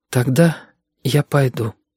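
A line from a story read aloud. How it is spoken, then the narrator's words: Quiet, very plaintive. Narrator (Russian): сказала она тихо и очень жалобно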